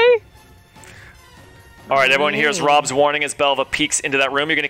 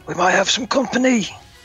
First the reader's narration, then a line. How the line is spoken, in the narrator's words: Rob kind of whispers